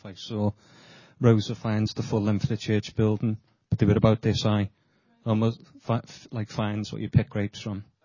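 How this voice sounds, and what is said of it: Speaks with a noticeable accent. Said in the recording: “Sorry, my accents”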